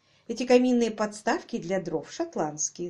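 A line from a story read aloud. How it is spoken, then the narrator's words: Plain. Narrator (Russian): сказала она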